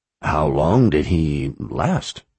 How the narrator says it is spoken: Addie sighed

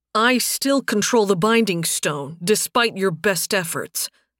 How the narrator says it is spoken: Nathan growled out

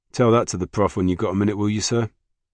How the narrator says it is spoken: Spike laughed

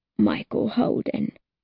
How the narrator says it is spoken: After a pause, Charlie croaks

